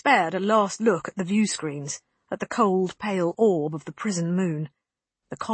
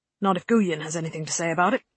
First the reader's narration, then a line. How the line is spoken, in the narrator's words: Holston grumbled